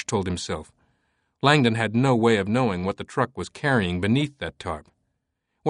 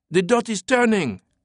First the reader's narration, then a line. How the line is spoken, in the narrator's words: Collet yelled